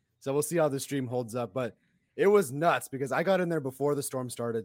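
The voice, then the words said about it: Hoarse, strained voice. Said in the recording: “My voice is a little shot because we were causing delay of game penalties, all four of us.”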